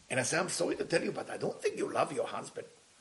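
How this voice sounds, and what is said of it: Israeli accent. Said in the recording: “Being Israeli and having an accent”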